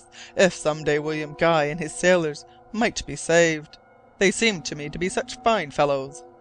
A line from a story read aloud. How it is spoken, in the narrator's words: cried Glass